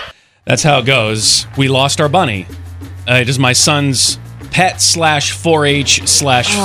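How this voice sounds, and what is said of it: Usual voice. Nothing is said of it.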